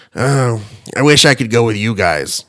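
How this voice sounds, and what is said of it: Raspy Boston-accented voice. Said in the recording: “he's got this really raspy voice... it sounded like Selma from a Boston version of Selma from The Simpsons”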